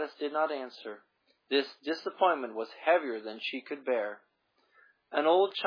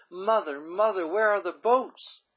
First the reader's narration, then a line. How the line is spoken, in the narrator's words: Totally exhausted, the girl sobbed